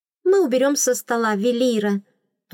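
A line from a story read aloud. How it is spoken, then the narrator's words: Cheerful. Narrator (Russian): радостно сообщили служанки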